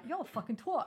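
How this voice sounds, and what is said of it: Put-on British accent. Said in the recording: “British accent ... That was a really good accent.”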